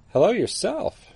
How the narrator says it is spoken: she said with a chuckle

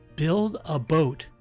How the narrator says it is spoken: said the voice

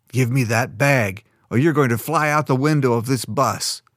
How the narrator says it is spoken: Roderick snarled

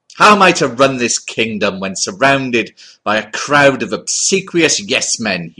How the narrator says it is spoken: thundered

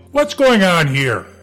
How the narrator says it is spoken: Nigel yelled

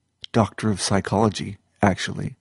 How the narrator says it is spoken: said

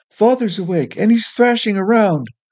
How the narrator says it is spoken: Withybottom shouted from upstairs

